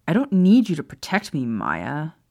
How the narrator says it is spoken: Remus said irritably

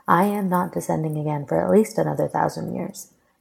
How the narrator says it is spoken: she replied flatly

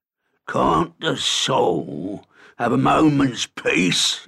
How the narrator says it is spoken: he boomed

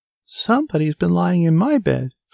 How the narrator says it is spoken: squeaked the baby bear joyfully

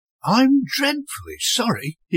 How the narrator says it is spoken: he cooed, giving her a broad, apologetic smile

